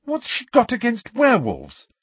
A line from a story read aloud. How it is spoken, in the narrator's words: said Hermione angrily